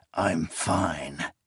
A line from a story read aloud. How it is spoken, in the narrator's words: croaked